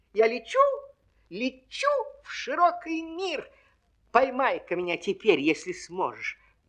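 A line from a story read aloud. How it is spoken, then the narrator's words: Squeaking pea. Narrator (Russian): пискнула горошинка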